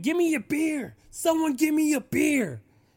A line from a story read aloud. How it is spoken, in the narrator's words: He's screaming